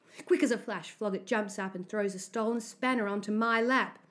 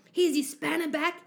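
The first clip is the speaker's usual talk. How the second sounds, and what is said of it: Loud voice. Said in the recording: “he says to me in a loud voice.”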